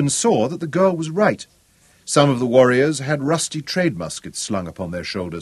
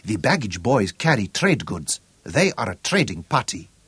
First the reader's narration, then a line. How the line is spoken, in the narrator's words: Juba whispered